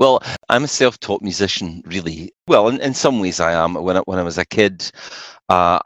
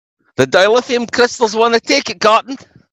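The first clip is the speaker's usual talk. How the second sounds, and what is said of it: Star Trek Scotty impression. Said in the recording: “Scotty, which is a fake accent on Star Trek”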